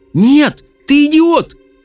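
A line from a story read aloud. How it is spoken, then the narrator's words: Shouting. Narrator (Russian): крикнула Мел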